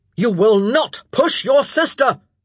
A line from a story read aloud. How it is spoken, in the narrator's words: Philip roared